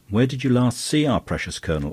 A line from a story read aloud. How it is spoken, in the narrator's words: asked Flambeau irritably